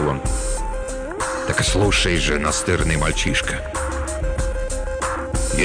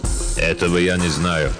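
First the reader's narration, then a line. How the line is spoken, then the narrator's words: Icy. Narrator (Russian): ледяным тоном ответил лесной маг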